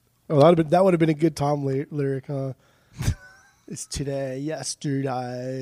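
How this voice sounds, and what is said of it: Usual voice. Nothing is said of it.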